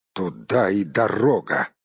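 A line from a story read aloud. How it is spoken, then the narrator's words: Through gritted teeth. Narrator (Russian): процедил Барт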